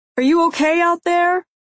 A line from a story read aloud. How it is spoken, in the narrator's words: Someone yells from their house